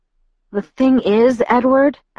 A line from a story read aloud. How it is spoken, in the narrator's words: I said in a shaky voice